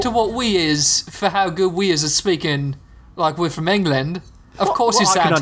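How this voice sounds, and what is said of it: Put-on British English accent. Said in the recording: “British accents ... two guys like us who are just excellent at English accents ... a spot on accent”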